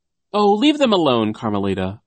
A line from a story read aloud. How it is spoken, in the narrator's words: a voice cried over the chanting